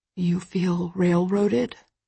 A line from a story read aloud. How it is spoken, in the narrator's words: He whispers